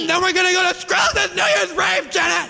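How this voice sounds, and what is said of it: Yelling excitedly. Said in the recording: “stop yelling at me ... now you're like yelling me”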